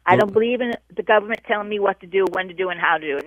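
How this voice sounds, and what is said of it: Northeastern American accent. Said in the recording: “say door for me one more time ... I love that accent ... I love those Northeastern women”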